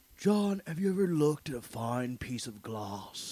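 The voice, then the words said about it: Imitates another person's voice. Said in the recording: “his Nick Cage impersonation”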